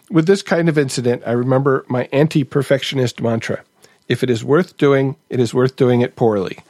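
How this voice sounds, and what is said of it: German-accented English. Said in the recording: “criticizing myself for my accent ... We don't eat weed cakes in Germany.”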